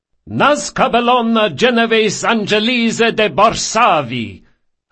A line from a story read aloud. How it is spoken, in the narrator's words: her father thundered